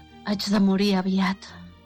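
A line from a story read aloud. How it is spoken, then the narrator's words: Sighing dragon. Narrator (Catalan): va sospirar el drac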